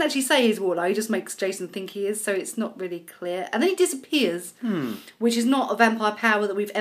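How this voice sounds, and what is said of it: Usual voice. Nothing is said of it.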